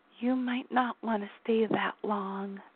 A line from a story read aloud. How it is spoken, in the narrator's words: she whispered